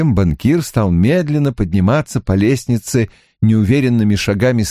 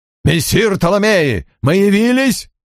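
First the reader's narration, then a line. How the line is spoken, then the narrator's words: Yelling. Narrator (Russian): Жан завопил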